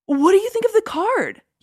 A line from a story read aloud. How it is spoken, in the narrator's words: he asked eagerly